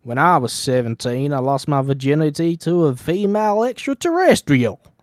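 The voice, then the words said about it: Put-on heavy Southern US accent. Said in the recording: “I imagine him being very, very southern ... Southern. Real southern baby ... Very good.”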